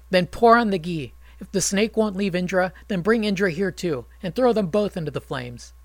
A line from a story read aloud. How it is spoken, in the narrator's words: Angrily, Janamejaya said